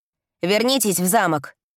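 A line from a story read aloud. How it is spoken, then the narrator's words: Sharp demand. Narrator (Russian): требует он резко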